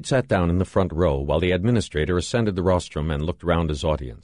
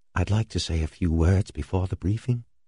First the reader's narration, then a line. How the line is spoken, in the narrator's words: Floyd whispered to Halverson